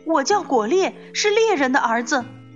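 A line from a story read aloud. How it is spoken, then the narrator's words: Loud. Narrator (Chinese): 果猎大声说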